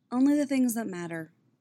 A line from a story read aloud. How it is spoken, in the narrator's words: tells him warmly